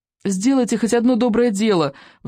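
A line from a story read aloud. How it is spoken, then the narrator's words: Desperate pleading. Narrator (Russian): взмолился Икинг, болтаясь в гигантских челюстях чудовища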